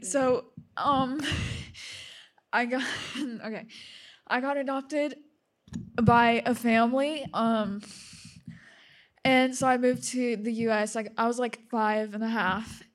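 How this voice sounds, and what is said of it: Emotional, fast, choked-up speech. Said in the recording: “I'm sorry if I'm talking so fast. ... I'm getting emotional.”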